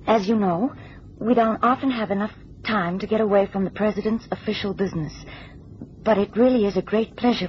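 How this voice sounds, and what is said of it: US First Lady impression, Russian traces. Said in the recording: “read it in her voice ... You have the inflections and the accent, but you retain still traces of your origin, your Russian overtones ... the recording of the wife of the President of the United States of America”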